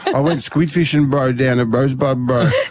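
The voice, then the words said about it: Impression with Albanian accent. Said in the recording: “you just impersonated Josiah and put on an Albanian accent”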